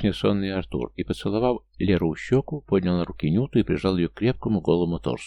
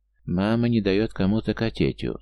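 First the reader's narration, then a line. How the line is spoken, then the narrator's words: Very sad question. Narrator (Russian): спросил он очень грустным голосом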